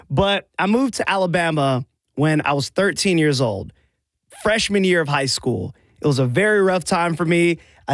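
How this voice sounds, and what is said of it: Mixed West Coast and Southern accent. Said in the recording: “I have a Southern accent, but not really. I have sort of a West Coast mixture of Southern accent.”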